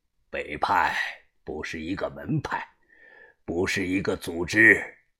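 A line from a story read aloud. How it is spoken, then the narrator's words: Strong, cold voice. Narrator (Chinese): 把头睁开眼睛，声音中气十足，冷漠的说道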